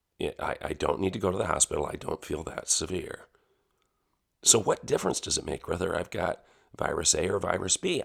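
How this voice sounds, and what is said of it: Growly, congested voice with a cold. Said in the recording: “I'm growling. ... I have a cold. ... I have sinus congestion. I have a cough. I have chest congestion.”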